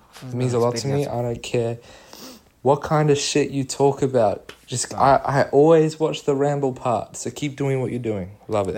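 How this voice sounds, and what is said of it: Mixed New Zealand-Australian accent. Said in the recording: “he's a bit Kiwi, but he's a bit Aussie ... a Kiwi who lived in Australia who's now in America”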